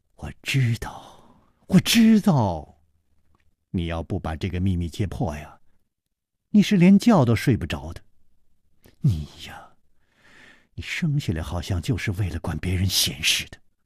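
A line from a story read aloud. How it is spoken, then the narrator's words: Sighing. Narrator (Chinese): 李红秀叹道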